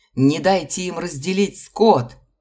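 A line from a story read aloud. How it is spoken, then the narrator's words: Shouts from the front. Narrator (Russian): закричали спереди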